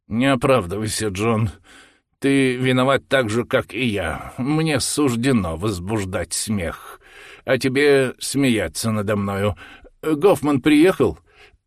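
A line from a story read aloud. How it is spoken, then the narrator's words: Heavy resigned sigh. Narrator (Russian): Мистер тяжко вздохнул, с выражением покорности судьбе, и сказал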